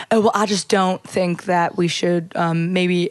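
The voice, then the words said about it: Put-on Southern accent. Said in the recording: “doing the Southern accent”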